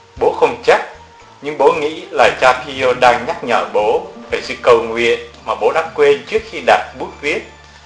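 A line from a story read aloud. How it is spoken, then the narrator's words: Smiling. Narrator (Vietnamese): Ông Del Franti mỉm cười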